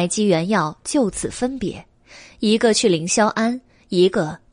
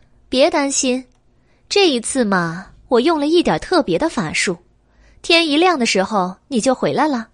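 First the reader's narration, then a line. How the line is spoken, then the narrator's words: Laughing reassurance. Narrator (Chinese): 白姬笑道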